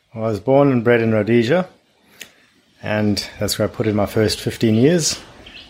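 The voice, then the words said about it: Speaks with a noticeable accent. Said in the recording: “you have a bit of an accent”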